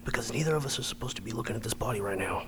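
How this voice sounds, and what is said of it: Whispering. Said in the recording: “Why are we whispering? ... You can stop whispering.”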